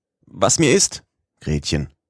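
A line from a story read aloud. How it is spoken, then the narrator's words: Calling out. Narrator (German): rief ich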